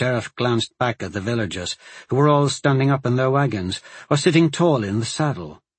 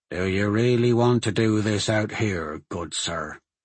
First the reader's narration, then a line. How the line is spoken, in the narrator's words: the sheriff said in a low voice